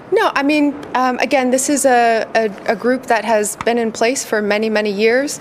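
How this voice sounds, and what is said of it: American accent. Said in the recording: “perfect American accent”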